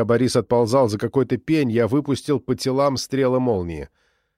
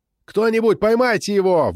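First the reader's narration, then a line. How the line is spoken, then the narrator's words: Shouted. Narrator (Russian): выкрикнул я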